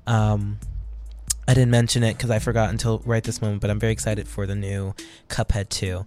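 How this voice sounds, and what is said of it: Hoarse, worn-out voice. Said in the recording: “My voice is a little bit shot”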